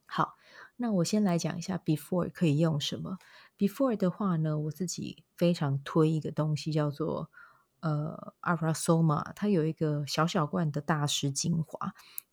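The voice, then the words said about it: Quiet, soft voice, slightly strained throat. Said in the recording (Chinese): “今天这一集应该会比较小声一点啦，因为半夜的时间我也不好说大声这样子 ... 然后再加上喉咙有点有点不舒服哦”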